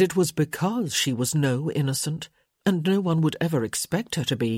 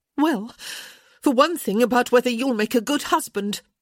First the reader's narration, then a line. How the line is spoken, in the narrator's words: she snapped back, finally goaded into anger